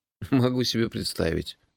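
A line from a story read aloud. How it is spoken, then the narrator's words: Sighing. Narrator (Russian): вздохнул я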